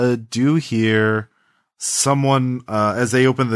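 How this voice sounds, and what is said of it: Usual voice. Nothing is said of it.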